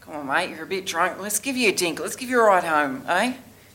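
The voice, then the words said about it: Put-on Australian accent. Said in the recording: “The accent was correct ... points for the accent ... Good accent work ... But it's Australia”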